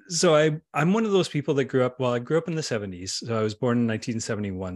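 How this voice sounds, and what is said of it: Mild western Canadian accent. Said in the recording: “I'm a Canadian, if you can't guess by my outrageous accent... I've got the most boring of Canadian accents... middle western part of Canada, so we are the most boring accented people in the world”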